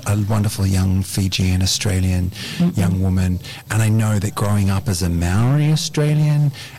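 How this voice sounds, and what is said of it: Australian accent. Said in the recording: “I got this Aussie accent now”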